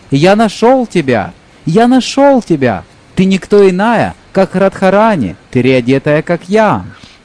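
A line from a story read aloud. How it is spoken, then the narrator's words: Male exclamation. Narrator (Russian): Он воскликнул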